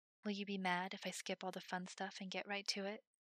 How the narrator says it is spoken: whispered against his lips

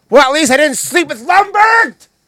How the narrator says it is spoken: Peter yells at her

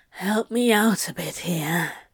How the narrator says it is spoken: breathed out

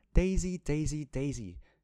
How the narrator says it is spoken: shouted Mrs

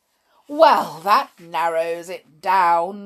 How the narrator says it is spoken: snarled sarcastically

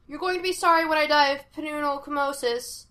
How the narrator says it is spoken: Sean shouted back

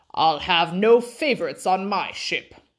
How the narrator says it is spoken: heard him say quite loudly to the doctor

